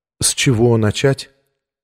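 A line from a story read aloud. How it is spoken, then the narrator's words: Calm question. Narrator (Russian): спросила она совершенно спокойно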